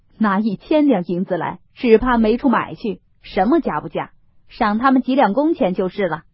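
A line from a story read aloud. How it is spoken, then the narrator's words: Laughing. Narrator (Chinese): 薛蟠笑道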